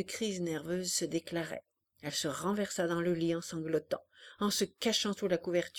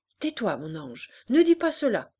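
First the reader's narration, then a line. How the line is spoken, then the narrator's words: Mother shouting. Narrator (French): cria la mère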